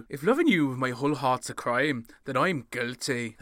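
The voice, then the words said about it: Put-on Irish accent. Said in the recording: “That was an Irish accent”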